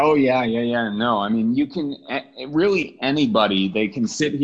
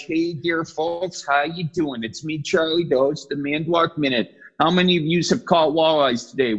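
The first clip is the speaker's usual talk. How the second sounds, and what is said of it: Put-on folksy regional accent. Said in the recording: “does the accent just immediately turn on when you put that thing on?”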